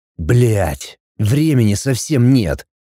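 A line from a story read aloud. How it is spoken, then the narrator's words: Curt growl. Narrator (Russian): мужчина обрывисто прорычал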